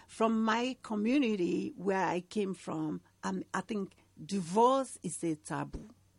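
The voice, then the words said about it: Noticeable accent. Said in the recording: “you probably sense some accent from my mouth, from my voice.”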